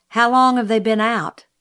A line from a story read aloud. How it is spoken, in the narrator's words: asked Jim